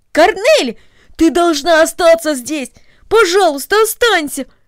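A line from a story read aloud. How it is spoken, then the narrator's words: Pleading exclamation. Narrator (Russian): воскликнул Дино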